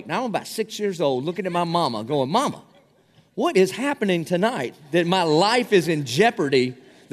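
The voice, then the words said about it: South Carolina Southern accent. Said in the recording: “a hard time understanding my accent because I'm from South Carolina, and we like to take six words and make them two words”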